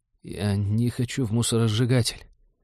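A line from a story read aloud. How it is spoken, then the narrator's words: Quiet but clear whisper. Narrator (Russian): тихо, но внятно прошептал Дэн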